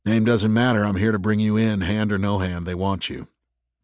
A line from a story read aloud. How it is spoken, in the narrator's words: Dex said